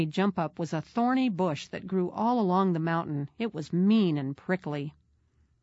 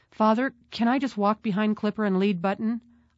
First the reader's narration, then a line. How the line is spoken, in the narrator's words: I asked hesitantly